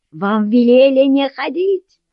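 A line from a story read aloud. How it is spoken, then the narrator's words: Man yelling. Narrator (Russian): заорал мужчина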